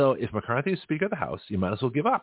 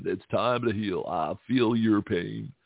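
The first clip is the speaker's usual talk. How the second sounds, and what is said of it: Gruff Bill Clinton impression. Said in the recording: “channeling Bill Clinton ... I think I can finally do a Bill Clinton impression. ... I had to get older and gruffer in voice.”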